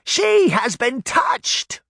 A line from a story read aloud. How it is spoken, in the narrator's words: she screamed